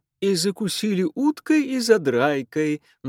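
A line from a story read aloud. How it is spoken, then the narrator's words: Singsong chiming in. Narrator (Russian): нараспев подхватила миссис Уайзман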